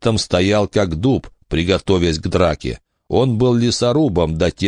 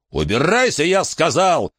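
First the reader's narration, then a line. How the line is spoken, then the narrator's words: Roaring. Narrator (Russian): проревел Джон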